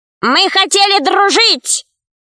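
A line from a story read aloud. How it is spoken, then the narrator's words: Shouting. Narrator (Russian): закричала вторая ящерица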